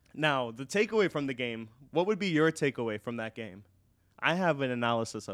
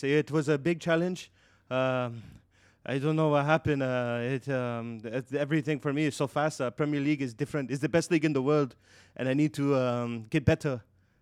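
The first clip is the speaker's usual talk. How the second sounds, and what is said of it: Unconvincing put-on Spanish accent. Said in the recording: “that doesn't sound like a very Spanish accent. ... I can only do Narcos.”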